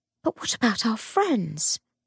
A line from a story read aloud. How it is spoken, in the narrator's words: She whispered